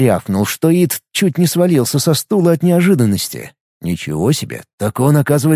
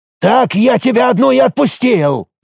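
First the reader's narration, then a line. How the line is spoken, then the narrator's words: Barking. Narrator (Russian): рявкнул Рифат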